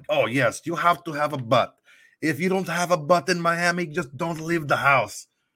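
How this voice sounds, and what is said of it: Put-on Russian accent. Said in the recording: “this Russian cab driver ... with his little accent.”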